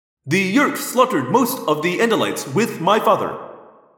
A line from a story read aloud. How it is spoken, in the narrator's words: I said